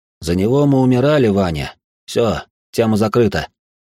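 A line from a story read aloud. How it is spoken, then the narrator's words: Displeased grumble. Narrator (Russian): недовольно проворчал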